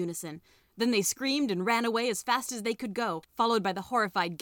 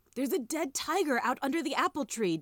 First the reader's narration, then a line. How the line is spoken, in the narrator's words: Diggory gasped